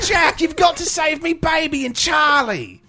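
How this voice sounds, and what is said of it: Put-on harsh Australian accent. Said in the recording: “She has a really hard accent, too. Like, it's harshly Australian. ... her voice was tough”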